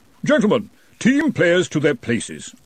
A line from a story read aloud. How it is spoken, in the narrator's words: said the Arch-Chancellor of Brazenek haughtily